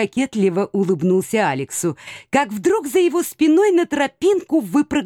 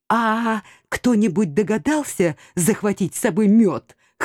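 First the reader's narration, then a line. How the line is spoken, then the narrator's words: Hoarse whisper. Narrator (Russian): хрипло прошептала я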